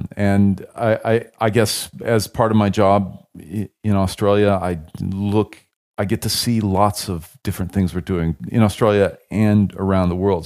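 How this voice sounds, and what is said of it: American accent. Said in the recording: “I have an American accent, I've lived in Australia for many years”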